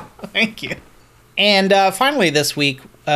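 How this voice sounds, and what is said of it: Usual voice. Nothing is said of it.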